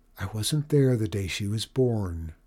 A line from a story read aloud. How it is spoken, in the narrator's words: she said very softly